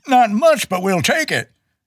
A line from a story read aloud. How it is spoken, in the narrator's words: He exclaims excitedly